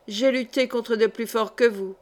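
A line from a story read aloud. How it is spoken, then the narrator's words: Plain. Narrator (French): dit-elle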